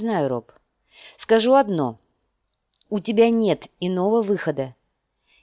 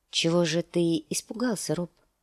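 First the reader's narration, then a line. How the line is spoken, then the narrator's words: Gentle question. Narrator (Russian): спросила она мягко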